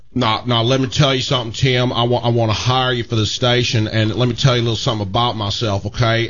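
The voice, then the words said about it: Imitates another person's voice. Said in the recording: “my Randy Markle imitation ... That's a good Randy Markle.”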